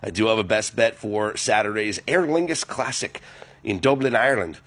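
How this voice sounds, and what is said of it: Poor put-on Irish accent. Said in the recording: “That was a terrible Irish accent”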